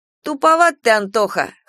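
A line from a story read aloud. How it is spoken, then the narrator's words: Snorting. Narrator (Russian): хмыкнул Егор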